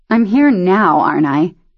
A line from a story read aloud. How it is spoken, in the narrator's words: Shelby sighed